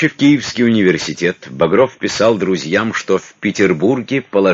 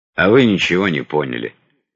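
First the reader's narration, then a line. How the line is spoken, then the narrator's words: Grim reply. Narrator (Russian): мрачно ответил Багров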